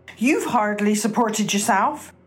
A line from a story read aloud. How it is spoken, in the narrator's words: Jane sneered a reply, saying